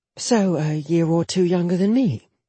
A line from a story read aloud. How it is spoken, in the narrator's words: Jetta murmured